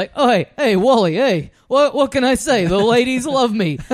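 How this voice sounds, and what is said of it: Rodney Dangerfield-style wizard voice. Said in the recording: “voiced by a guy doing a Rodney Dangerfield impression”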